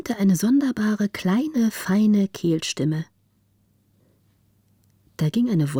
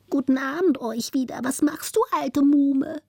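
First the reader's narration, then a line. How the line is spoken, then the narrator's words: Thin squeaky rat voice. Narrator (German): pfiff die zweite Ratte mit feiner Stimme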